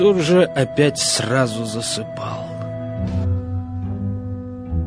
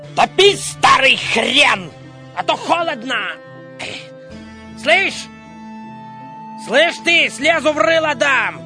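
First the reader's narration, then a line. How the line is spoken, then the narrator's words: Shouting, just woken. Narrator (Russian): временами засыпал и, просыпаясь, кричал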